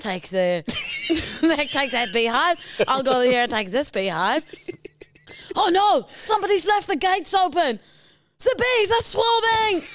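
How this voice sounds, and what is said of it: Vague put-on European accent. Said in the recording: “this is your attempt at any sort of an accent. If it's European or just anywhere that we don't know, you just put Z for the... German, Italian, Spanish, Portuguese, whatever”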